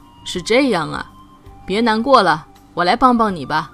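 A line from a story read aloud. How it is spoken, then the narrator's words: Old voice, smiling. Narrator (Chinese): 老河蚌听了，笑了笑说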